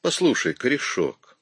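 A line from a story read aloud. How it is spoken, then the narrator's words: Quiet, mocking. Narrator (Russian): тихо, с насмешкой произнес Перри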